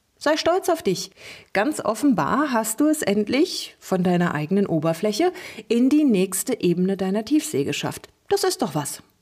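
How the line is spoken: Cheerful chatter. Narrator (German): plauderte Lulu fröhlich weiter

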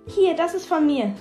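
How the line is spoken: Expectant call. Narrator (German): rief Melody erwartungsvoll

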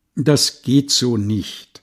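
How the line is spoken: Plain. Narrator (German): sagte Gunnar Peck

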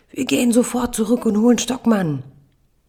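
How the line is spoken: Tearful child shouting. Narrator (German): Die Augen meiner Tochter füllen sich mit Tränen, ihr Körper spannt sich an, brüllt

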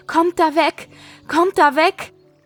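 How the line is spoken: Shouting while running. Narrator (German): Sie rief und schrie im Laufen

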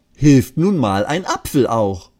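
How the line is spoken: Laughing hysterically. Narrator (German): lachen sich kaputt

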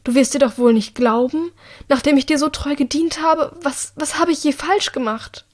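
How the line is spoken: Pleading. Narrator (German): Sie fleht Annika tatsächlich an

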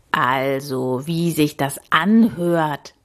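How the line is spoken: Croaking. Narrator (German): krächzte er

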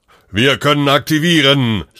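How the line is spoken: Shouting over noise, phone. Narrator (German): schrie er im Anbetracht des Lärmpegels in den Hörer

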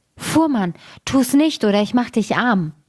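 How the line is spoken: Calling out. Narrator (German): rief er

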